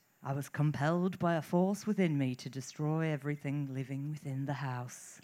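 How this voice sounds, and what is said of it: Put-on accent while reading a quote. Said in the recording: “This accent. ... It's brilliant.”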